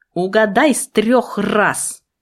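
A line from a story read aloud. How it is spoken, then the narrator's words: Hissed. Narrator (Russian): прошипела я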